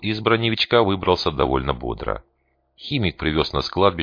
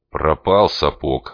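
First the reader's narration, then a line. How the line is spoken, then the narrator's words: Grumble. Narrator (Russian): снова буркнул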